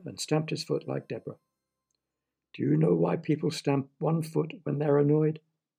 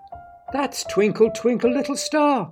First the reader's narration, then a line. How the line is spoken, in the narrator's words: cried Deborah